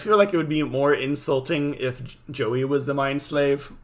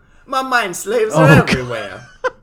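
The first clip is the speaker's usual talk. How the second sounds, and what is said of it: Put-on New York accent. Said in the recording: “in a New York accent?”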